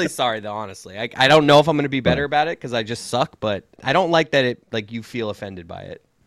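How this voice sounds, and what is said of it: Usual voice. Nothing is said of it.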